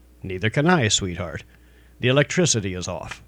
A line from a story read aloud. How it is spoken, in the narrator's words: Calmly, he said